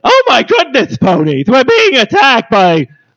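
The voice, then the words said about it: Imitates another person's voice. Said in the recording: “We're thinking of going with an Ed Wynn version of Twilight.”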